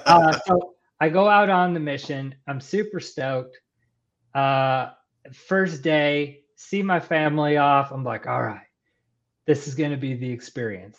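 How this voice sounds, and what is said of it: Texan Southern American accent. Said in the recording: “Am I detecting an accent coming through? ... in the Texas, South anytime? ... identified the accent now. ... When I get excited, my Texan comes out.”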